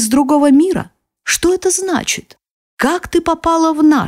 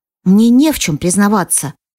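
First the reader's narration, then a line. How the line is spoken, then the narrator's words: Calm, restrained voice. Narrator (Russian): спокойно говорю я, стараясь больше не повышать голос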